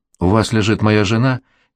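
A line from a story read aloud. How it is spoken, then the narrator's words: Reluctant grumble. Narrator (Russian): неохотно буркнул он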